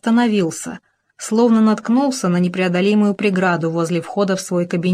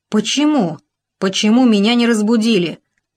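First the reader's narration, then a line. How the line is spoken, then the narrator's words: Exclaiming with muffled fury. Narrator (Russian): с глухой яростью воскликнул Шорнер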